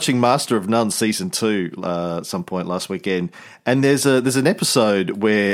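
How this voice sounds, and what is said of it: Usual voice. Nothing is said of it.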